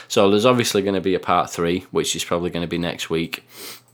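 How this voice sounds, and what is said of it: Slightly hoarse, fading voice. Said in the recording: “I'm starting to lose my voice a bit.”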